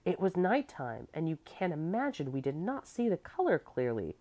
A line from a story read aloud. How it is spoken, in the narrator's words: Clevi said indignantly